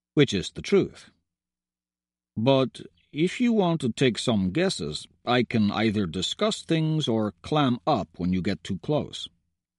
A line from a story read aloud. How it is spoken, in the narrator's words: says evenly